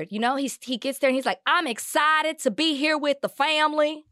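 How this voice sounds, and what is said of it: Exaggerated put-on Southern twang. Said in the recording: “a childhood twang ... He's impersonating what he thinks people from Louisiana say ... Do you say excited like that?”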